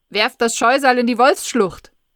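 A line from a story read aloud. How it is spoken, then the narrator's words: Loudspeaker announcement. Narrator (German): Der Lautsprecher ruft's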